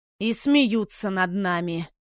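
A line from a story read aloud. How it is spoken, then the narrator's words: Displeased growl. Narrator (Russian): недовольно прорычал Райан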